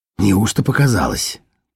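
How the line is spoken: Mumbling. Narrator (Russian): пробормотал всемирщик

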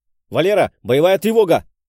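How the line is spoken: Shouting. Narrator (Russian): Почти сразу выкрикнул я

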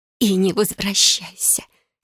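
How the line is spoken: Tearful whisper. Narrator (Russian): прошептала она

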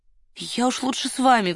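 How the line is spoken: Pleading. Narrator (Russian): взмолилась Варя

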